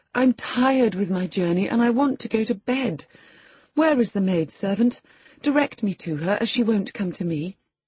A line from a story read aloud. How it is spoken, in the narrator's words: I exclaimed